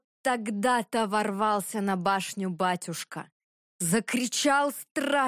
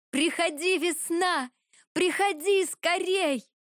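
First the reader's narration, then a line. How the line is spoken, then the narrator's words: Joyful shout. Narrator (Russian): Радостно закричала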